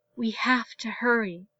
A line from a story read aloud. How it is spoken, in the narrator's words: Ahsoka whispered